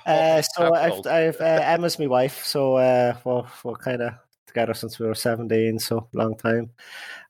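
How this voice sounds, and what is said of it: Irish accent. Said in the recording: “you can say it better with the accent. Over in Ireland.”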